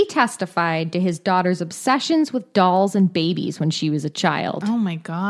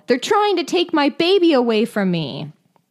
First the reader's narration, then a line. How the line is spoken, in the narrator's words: she yelled